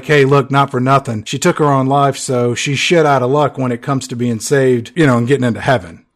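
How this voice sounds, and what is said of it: Imitates another person's voice. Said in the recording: “that was my Anthony Hopkins impression. ... It's pretty good.”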